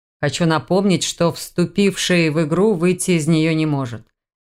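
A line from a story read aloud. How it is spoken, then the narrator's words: Menacing. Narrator (Russian): грозно произнес главный бородач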